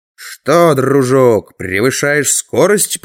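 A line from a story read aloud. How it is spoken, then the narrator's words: Growling. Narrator (Russian): прорычал я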